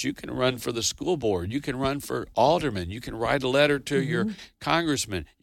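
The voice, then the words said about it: Deep southern drawl. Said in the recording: “southern drawl ... the deep southern accent”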